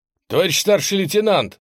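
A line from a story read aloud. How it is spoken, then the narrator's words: Calling out. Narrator (Russian): позвал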